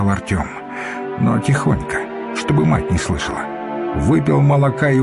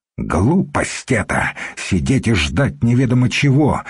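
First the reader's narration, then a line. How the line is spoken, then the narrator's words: Angry. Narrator (Russian): сердито сказал Артем старому варягу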